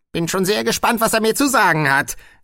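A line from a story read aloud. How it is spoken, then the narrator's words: Old witch's sharp retort. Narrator (German): gab die alte Hexe scharf zurück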